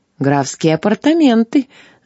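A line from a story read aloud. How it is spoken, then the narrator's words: Laughing. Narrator (Russian): засмеялся новый хозяин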